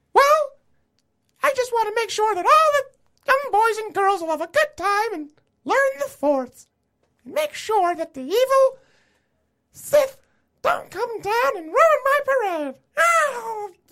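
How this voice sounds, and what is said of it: Mickey Mouse cartoon voice. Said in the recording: “Doing that Mickey Mouse voice”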